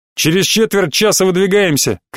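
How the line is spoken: Sudden shout. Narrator (Russian): крикнул вдруг

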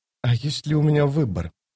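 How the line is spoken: Whisper. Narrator (Russian): прошептала она

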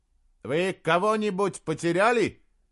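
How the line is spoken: Shouted. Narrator (Russian): крикнул он

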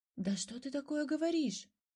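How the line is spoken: Exclaimed. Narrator (Russian): воскликнул Котя

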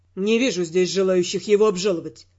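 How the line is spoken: Gloomy remark. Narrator (Russian): мрачно заметил Тео

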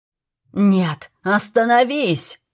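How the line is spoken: Shouted. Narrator (Russian): закричал Аберон

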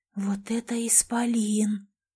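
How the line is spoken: Spellbound whisper. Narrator (Russian): завороженно прошептала Элизабет

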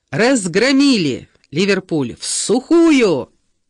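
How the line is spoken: Yelling idiot. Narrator (Russian): заорал этот тупица

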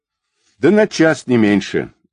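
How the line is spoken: Angry, spat out. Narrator (Russian): зло сплюнул Павел

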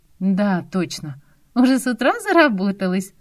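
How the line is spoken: Laughing. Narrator (Russian): засмеялась Яна

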